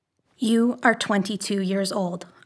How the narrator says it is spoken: whispered

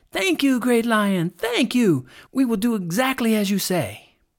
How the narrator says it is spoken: they all cried out

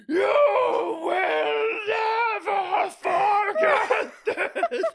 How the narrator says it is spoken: she screamed

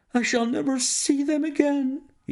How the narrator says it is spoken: he cried

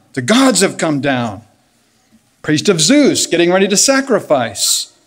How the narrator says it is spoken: They were shouting in their native tongue

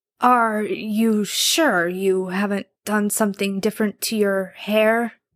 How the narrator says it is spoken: Dean asked, his voice more of a rough croak than anything

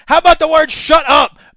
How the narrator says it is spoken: Baggy growled

